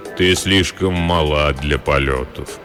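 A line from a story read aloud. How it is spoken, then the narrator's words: Deep soft voice. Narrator (Russian): произнес высокий человек глубоким мягким голосом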